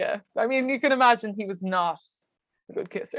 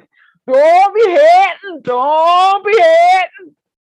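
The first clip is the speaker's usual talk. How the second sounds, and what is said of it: Thick Wexford Irish accent. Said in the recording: “he has a really thick like Wexford accent, ... it's like sounds like this.”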